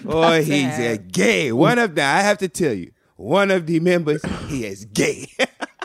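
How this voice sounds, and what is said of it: Imitates another person's voice, put-on accent. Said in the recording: “What is this accent? ... It comes from Boomerang. Remember when Grace Jones was like”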